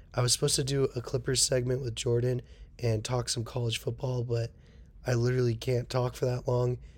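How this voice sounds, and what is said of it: Damaged, strained voice. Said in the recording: “my voice is very messed up right now”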